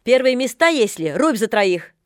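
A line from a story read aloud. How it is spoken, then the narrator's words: Stern shout, lady. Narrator (Russian): крикнул строго барыня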